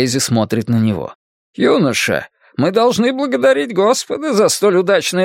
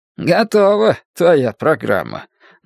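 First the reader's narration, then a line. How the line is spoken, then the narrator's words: Mocking remark. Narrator (Russian): насмешливо замечает Крейзи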